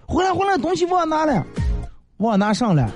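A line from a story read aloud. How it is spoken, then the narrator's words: Shouting from upstairs. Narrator (Chinese): 我媳妇在上头喊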